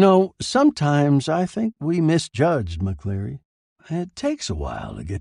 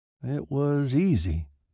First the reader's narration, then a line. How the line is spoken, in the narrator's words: said weakly